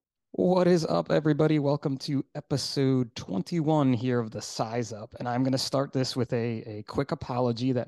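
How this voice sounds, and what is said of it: Hoarse voice. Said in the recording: “my voice is a little hoarse sounding today... my voice is like crazy hoarse today”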